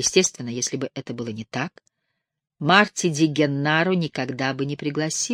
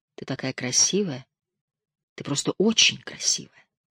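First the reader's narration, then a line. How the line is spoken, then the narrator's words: Whispered in her ear. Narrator (Russian): Пит шептал ей на ухо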